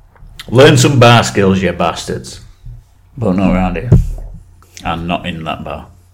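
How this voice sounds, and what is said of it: Put-on Scottish accent, sounds Jamaican. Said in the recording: “Are you doing a Jamaican accent? ... That was my Scottish accent.”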